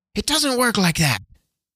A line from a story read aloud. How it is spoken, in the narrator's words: snapped Nessica